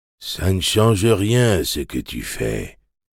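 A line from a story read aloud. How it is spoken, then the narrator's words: Inner voice murmuring. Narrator (French): murmura une voix dans sa tête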